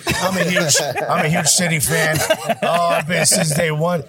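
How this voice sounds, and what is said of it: Fake Manchester accent. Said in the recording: “they put on a fake Manchester accent.”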